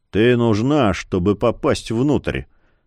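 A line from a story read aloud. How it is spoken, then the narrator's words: Gloomy pronouncement. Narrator (Russian): мрачно изрек он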